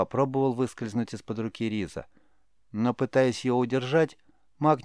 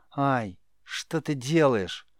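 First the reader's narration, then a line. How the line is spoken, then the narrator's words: Near-tearful reproach. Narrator (Russian): почти плачущим голосом укорил бедолага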